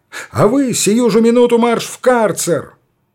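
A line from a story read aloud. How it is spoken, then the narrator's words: Angry shout. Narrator (Russian): он крикнул на Александрова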